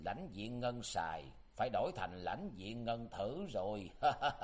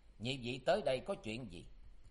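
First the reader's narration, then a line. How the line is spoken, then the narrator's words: Cold question. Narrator (Vietnamese): Tuyết Sơn ma nữ Lý Ngọc Lan giọng lạnh lùng hỏi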